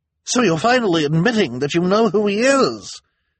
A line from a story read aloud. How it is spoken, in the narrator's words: she cried triumphantly